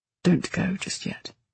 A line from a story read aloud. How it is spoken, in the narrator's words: he said softly